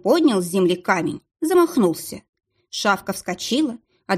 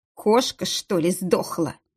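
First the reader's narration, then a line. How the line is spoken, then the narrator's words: Muttered. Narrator (Russian): пробормотал Калиныч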